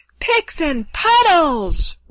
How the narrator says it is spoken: roared the king

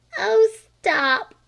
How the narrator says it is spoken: cried Flame

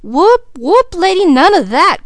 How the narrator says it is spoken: cried Mickey, aghast

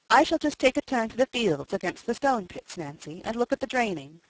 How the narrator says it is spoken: said Godfrey

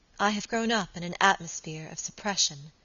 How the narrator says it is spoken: she said quietly

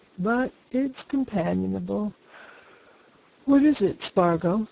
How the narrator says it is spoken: he said, yawning

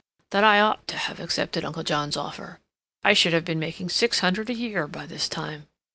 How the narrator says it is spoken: he observed gloomily

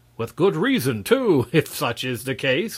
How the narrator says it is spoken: laughed Marvel

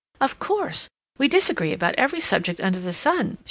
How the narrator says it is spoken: exclaimed

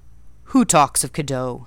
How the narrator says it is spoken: he said gruffly

